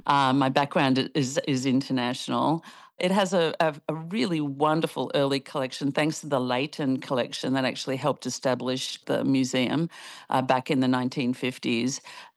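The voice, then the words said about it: Non-local foreign accent. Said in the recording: “as you can probably tell from this accent, I'm not from these parts”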